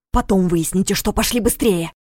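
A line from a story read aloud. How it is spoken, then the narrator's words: Whispered bark. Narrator (Russian): Шепотом рявкнул Дементьев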